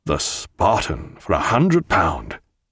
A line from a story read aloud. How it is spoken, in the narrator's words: muttered Jack